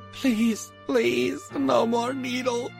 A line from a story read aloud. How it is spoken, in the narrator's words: she begged brokenly